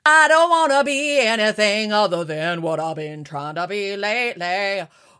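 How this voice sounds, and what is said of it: Sung imitation of another person's voice. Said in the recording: “Was that a good impersonation? ... It actually, it actually was kind of good.”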